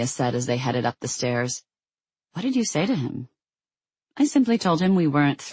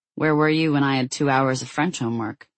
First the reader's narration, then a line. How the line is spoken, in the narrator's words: She grumbled